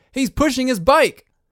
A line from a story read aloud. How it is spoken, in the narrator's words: the announcer change direction and exclaim